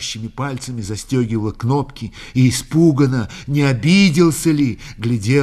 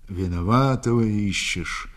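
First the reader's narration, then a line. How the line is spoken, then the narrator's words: Drawl while biting grass. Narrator (Russian): перекусывая травяную былку, протянул он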